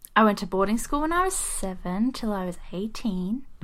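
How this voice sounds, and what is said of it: Mixed accent, originally English. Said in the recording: “I'm originally from England ... My accent is a bit weird because I have moved all over the world, so I pick up accents very easily”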